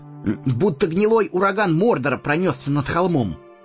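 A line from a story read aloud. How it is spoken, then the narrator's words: Through clenched teeth. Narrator (Russian): процедил сквозь зубы Сэмми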